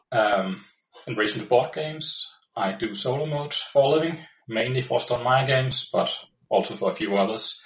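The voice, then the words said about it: Danish-accented English. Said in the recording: “I'm ... from Denmark ... the weird accent is the guy with the weird name”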